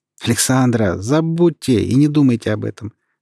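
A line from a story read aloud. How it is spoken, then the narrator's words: Laughing. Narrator (Russian): смеясь ответил Вадим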